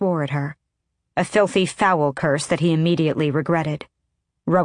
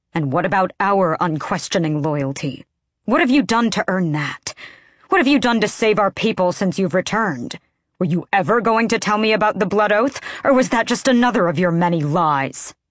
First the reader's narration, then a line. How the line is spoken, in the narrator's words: Aelin snarled with an animalistic intensity that reminded him she too had fey blood in her veins